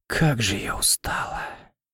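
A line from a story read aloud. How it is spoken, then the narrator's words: Quiet mutter. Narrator (Russian): тихо пробормотала Леона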